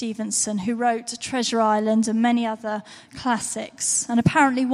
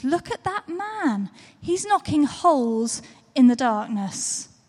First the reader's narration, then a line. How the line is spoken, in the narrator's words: with great excitement, he exclaimed